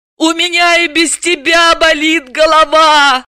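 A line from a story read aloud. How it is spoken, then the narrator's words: Wailing. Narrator (Russian): взвыла Далила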